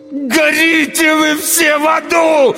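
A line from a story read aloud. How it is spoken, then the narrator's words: Howled. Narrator (Russian): взвыл я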